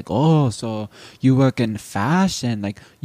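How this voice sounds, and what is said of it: Put-on vague Asian accent. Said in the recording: “vague Asian”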